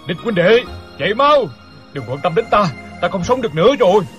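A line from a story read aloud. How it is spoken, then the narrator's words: Loud shout. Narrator (Vietnamese): bèn hét lớn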